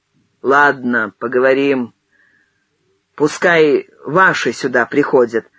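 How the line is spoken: Plain. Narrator (Russian): сказал Возвышаев

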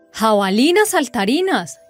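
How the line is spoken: Exclaimed. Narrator (Spanish): exclamó

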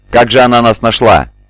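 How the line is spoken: Shout. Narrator (Russian): крикнул Зуши

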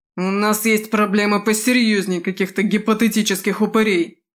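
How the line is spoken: Barking shout. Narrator (Russian): рявкнул Димахер

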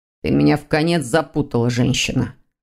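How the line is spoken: Grumbled. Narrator (Russian): проворчал Дамиан

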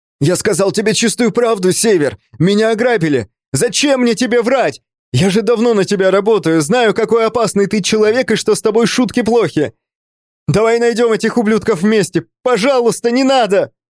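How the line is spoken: Hysterical shouting. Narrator (Russian): Парень впал в состояние истерики и закричал

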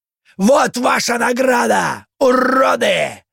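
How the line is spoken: Yelling over chainsaw. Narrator (Russian): заорал Лев, перекрикивая бензопилу

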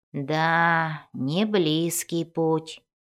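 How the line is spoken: Drawn out. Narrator (Russian): протянул Бреннер

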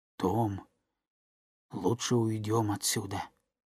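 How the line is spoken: Trembling voice. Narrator (Russian): Гек сказал дрожащим голосом

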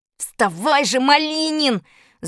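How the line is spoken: Trembling impatient yell. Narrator (Russian): завопил я не своим голосом, весь дрожа от нетерпения

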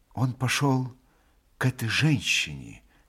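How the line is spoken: Quietly added. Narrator (Russian): тихо прибавил Алеша

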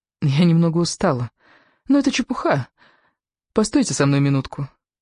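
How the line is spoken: Hesitant request. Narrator (Russian): попросила она неуверенно

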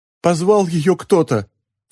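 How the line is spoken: Sobbing. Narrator (Russian): всхлипнул гость

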